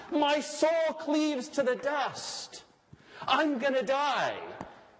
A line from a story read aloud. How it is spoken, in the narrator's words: Sometimes cried out to God